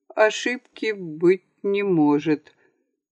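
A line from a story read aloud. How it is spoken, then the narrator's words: Slow repetition. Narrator (Russian): медленно повторил он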